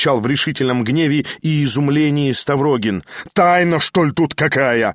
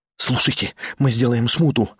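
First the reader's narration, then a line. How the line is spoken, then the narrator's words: Fast delirious mutter. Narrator (Russian): бормотал тот быстро и почти как в бреду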